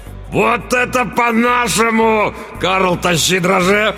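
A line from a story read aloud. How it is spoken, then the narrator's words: Roar. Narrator (Russian): взревел тот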